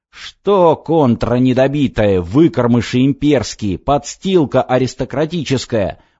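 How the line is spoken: Yelling abuse. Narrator (Russian): вопил он

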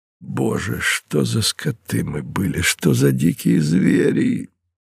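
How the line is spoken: Anguished groan. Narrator (Russian): простонал Мартин, вспоминая подробности этого боя

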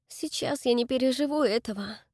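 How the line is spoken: Gloomy. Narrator (Russian): мрачно сказала Дакота

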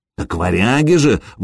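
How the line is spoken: Exclamation. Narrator (Russian): воскликнул Сергей

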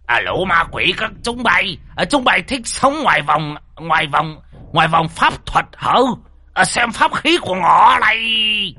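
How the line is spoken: Hissing. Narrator (Vietnamese): ông rít lên

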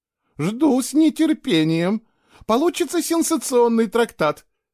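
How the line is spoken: Giggling. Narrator (Russian): Падима хихикнула

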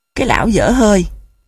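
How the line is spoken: Near hiss. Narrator (Vietnamese): Nụ gần như rít lên

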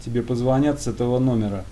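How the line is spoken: Dry, curt statement. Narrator (Russian): Незнакомец сухо сказал

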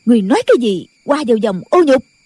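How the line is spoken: Angry loud question. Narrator (Vietnamese): Nghi Hòa tức giận lớn tiếng hỏi

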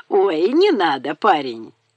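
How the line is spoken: Mocking. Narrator (Russian): насмешливо

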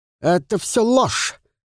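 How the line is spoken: Shouted, breaking free. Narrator (Russian): крикнул тот, словно освобождаясь от гипноза эксперта

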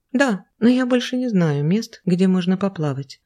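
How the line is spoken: Sad reply. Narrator (Russian): грустно ответила Ева

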